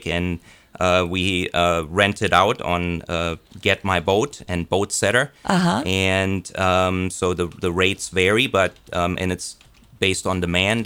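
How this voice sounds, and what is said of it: Speaks with a foreign accent. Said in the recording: “can I hear an accent there”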